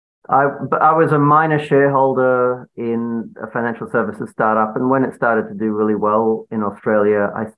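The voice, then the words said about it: Australian accent. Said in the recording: “Some of you may have spotted the accent already.”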